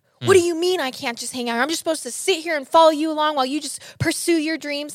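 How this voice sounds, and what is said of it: Yelling impression of angry man. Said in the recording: “he'd start yelling ... Good impression”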